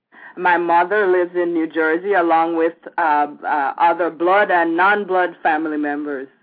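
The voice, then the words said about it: Mild Jamaican accent. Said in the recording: “you have quite a distinctive Jamaican accent. Well, not distinctive, but I can pick it up.”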